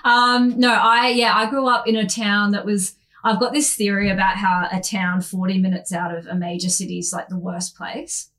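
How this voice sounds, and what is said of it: Australian Queensland accent. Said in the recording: “I'm a Queensland girl, which you can probably tell from my voice... I've got a bit of a rank voice”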